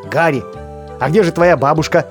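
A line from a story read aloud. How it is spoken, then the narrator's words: Plain. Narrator (Russian): спросил Буч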